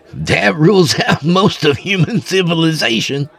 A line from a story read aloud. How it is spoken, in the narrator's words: Rudy said with a laugh